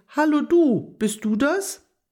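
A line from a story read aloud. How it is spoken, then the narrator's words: Half-hearted call. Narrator (German): Agathe rief etwas halbherzig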